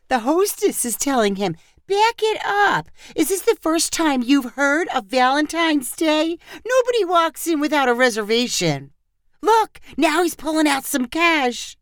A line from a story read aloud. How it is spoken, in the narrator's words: Sandra said excitedly